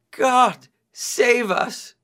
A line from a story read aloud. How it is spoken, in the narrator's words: they cried out